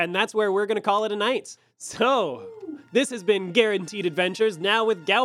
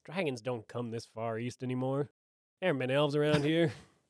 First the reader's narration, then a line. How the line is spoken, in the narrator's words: you hear the barkeeper mutter